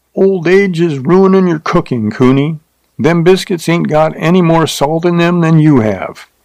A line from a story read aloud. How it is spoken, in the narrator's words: he hollered back